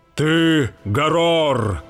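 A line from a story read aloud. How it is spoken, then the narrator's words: Exclaiming. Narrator (Russian): воскликнул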